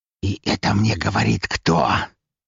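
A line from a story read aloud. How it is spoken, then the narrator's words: Near hiss. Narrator (Russian): практически прошипел он мне в лицо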